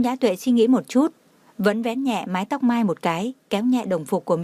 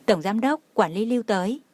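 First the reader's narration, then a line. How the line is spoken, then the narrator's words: Smiling. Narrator (Vietnamese): Đông Anh mỉm cười nói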